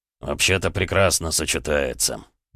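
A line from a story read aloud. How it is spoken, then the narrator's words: Amused grunt. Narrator (Russian): он хмыкнул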